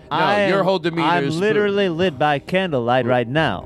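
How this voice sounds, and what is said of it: Spooky ghost character voice. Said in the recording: “the tone in your voice is very spooky ... That's just how Regis Philbin sounds ... Italian ghost”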